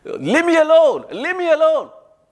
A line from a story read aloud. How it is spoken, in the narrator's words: she was shouting